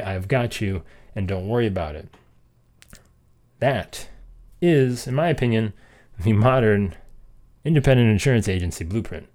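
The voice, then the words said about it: Out of breath, breathless speech. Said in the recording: “I'm out of breath.”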